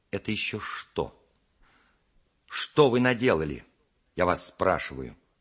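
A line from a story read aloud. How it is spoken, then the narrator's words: Stern. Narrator (Russian): сказала она строго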